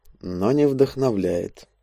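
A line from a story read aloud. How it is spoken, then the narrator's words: Very quiet. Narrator (Russian): он совсем уже тихо добавил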